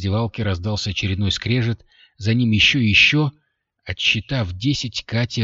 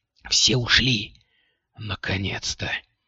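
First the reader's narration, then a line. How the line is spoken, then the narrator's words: Relieved exhale. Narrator (Russian): выдохнула Кристина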